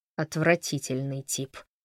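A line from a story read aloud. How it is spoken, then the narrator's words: Muttering, half-smiling. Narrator (Russian): пробормотал Фрэнк, но улыбка уже подкрадывалась к его губам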